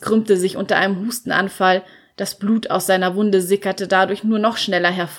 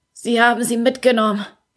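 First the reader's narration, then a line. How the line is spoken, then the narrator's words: Croaking. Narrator (German): krächzte er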